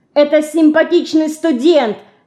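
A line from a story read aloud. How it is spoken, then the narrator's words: Shouting. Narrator (Russian): кричала она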